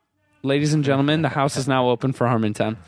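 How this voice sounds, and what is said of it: Deliberately bad put-on accent. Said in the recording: “It's the worst accent I've ever heard in my life ... It's a really bad accent.”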